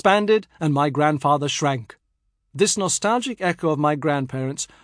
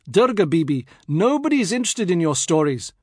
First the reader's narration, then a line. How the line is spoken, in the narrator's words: I, exasperated by her constant stream of news and chit-chat, had exclaimed